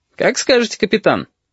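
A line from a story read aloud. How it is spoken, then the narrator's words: Cheerful. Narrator (Russian): бодро отозвался Бенецкий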